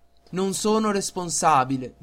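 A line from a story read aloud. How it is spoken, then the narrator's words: Plain. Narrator (Italian): disse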